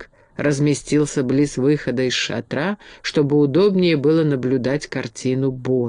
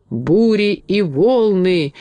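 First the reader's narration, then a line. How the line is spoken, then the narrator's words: Sudden wild yell. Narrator (Russian): вдруг дико заорал моряк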